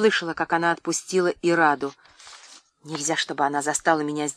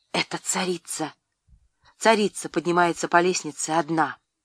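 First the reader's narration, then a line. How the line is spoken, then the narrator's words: Hurried whisper. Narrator (Russian): торопливо зашептала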